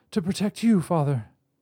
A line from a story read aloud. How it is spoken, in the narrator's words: she gasped, struggling to free herself from the spell